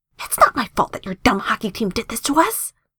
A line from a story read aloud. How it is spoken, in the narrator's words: Casey whisper yells back